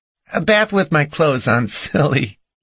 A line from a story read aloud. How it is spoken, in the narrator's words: she giggled